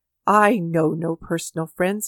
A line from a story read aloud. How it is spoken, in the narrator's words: he replied